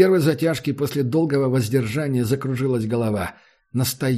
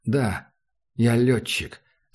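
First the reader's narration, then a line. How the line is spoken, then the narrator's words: Quiet. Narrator (Russian): сказал Макс негромко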